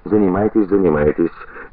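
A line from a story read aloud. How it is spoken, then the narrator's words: Patronizing, condescending tone. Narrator (Russian): говорит покровительственным тоном и несколько свысока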